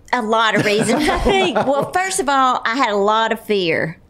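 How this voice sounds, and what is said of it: Speaks with a noticeable accent. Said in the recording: “I love hearing your accent tell your stories”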